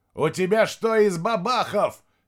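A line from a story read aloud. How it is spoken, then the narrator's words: Shouted. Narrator (Russian): крикнул он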